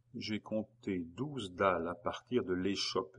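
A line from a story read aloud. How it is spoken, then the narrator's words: Murmur. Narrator (French): murmura-t-il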